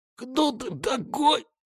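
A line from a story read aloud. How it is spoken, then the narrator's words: Weak, hoarse. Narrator (Russian): Вяло пытаясь сопротивляться, хрипло проговорил он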